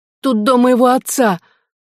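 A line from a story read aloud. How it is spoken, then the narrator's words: Tearful. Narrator (Russian): проговорила Мизи сквозь слезы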